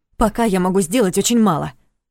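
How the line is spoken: Snapping retort. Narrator (Russian): огрызнулась Саша

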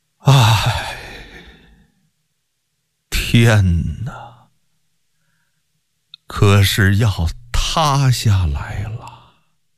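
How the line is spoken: Choked, sorrowful sigh. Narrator (Chinese): 忍不住哽咽流泪，轻轻地悲叹一声，不自觉地说道

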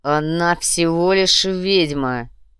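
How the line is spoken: Growl. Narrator (Russian): прорычал он

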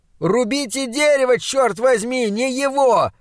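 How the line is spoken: Shout. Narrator (Russian): закричал он

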